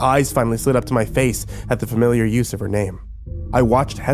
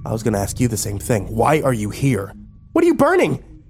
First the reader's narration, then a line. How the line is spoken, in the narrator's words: Her voice had raised to high-pitched hysteria